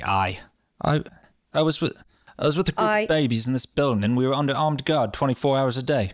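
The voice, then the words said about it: Put-on British accent. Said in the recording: “in a British accent, because James is British”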